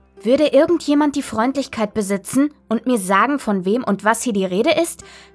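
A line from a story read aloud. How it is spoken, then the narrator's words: Angry shout. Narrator (German): schrie ich wütend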